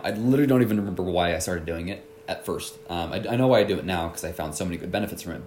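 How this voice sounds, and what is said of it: Stuffy, congested nasal voice. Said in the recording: “My nose is a little stuffy right now. ... I have a bit of a cold, ... I hope I don't sound like I'm too locked up.”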